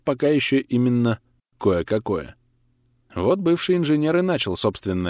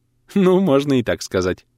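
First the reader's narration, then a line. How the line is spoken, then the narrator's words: Shy giggle. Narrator (Russian): стеснительно хихикнула врачиха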